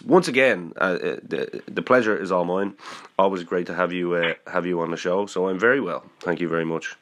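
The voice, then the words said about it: Slightly muffled, congested voice. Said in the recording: “I've got a little bit of a head cold... my voice sounds a little bit muffled, it's just purely because I have a little bit of a head cold”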